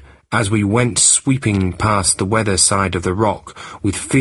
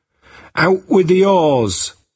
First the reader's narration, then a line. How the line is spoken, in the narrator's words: Jack cried